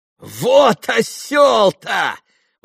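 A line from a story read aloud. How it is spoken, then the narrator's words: Exclaiming, nervous laughter. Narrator (Russian): воскликнул Иван, нервно захохотав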